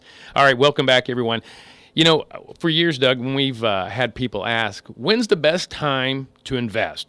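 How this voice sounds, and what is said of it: Raspy, recovering radio-ish voice. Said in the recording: “my voice is getting back ... it's kind of raspy, sort of radio-ish ... when I laugh, I squeak like a 14-year-old going through puberty”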